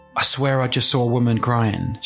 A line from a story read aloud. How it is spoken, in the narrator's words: she replied